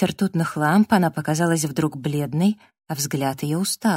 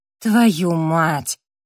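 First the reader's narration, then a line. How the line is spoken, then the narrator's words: Exclamation. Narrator (Russian): воскликнула Эбби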